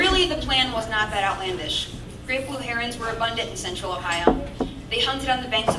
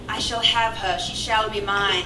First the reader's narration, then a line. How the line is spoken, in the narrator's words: He said aloud in a bad English accent